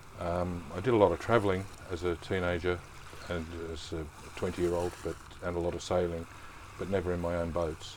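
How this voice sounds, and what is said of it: Australian accent. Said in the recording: “from your accent, obviously you're not from Totten or anywhere local to Southampton. ... born and raised in Geelong, Victoria, in the fair country of Australia”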